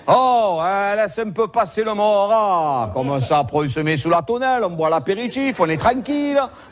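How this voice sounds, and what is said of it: Exaggerated Marseille Provençal accent. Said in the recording (French): “c'est devenu Richard III de Marcel Pagnol ... cet accent, il te pagnolise tout”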